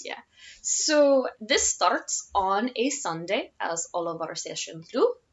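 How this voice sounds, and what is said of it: Odd Russian-like accent. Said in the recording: “With a Russian accent. ... I don't know if that would qualify as Russian. It's like Russian with a weird combobulator or something else in there.”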